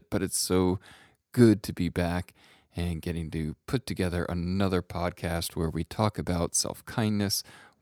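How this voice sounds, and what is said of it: Slightly hoarse, recovering-from-illness voice. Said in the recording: “I'm coughing in your ear here... did the COVID thing, and can still probably hear it in my voice a little bit”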